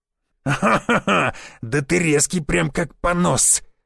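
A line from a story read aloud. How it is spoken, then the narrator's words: Guffawing brute. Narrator (Russian): заржал амбал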